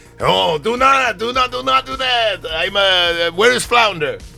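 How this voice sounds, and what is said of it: Poor put-on French accent. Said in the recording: “your French accent is terrible ... Have a terrible French accent ... You sound like Borat trying to do a French accent.”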